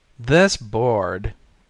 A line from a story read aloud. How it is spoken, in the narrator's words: said Levitt in his strong, sarcastic voice